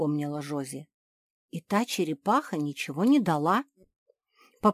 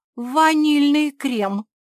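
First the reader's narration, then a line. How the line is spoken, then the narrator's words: Exclaiming. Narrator (Russian): воскликнула Гильда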